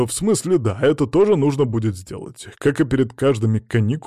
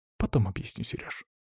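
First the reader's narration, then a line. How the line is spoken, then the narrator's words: Whispered reply. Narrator (Russian): прошептала она в ответ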